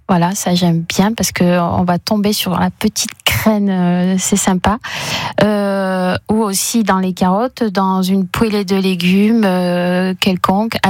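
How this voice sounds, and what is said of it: Vosges regional French accent. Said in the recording (French): “Elle est vosgienne. ... Vosgienne du Sud, c'est son accent, vous l'entendez”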